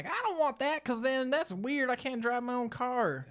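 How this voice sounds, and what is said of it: Put-on accent, older-person voice. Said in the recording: “Know why the accent came from that, because my parents don't sound like that.”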